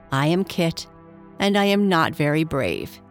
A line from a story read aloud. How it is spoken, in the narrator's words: he said simply